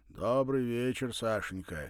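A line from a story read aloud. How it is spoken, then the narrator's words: Joyful deep bass. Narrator (Russian): радостно пробасил он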